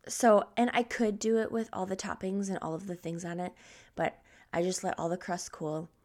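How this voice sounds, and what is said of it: Groggy morning voice. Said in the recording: “sorry about my voice. ... This must be morning voice.”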